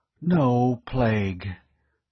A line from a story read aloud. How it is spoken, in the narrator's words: Weeks breathed a sigh of relief